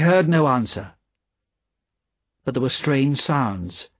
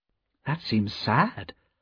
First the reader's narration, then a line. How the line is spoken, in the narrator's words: said Lucy gently